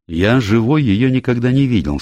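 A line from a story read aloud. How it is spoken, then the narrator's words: Plain. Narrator (Russian): сказал Келси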